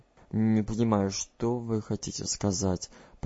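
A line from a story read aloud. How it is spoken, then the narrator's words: Muttering. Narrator (Russian): пробормотал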